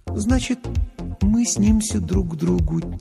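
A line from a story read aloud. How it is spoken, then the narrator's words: Quiet repeating. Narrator (Russian): тихо повторила Лана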